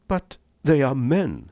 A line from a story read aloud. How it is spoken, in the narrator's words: said Rainsford hotly